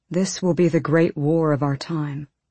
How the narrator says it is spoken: Kashin said quietly

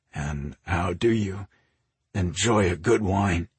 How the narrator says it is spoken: He asked in a rough voice

